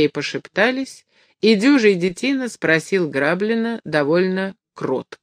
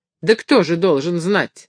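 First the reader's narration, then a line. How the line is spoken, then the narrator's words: Angry raised voice. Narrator (Russian): сердито спросил Граблин повышение голоса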